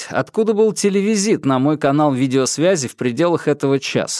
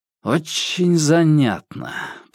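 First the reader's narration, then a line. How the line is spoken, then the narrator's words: Through gritted teeth. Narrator (Russian): процедил Грижа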